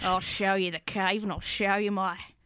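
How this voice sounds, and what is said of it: Cockney accent. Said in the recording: “a bit like Cockney Uncle Oscar... you're so good at the accent”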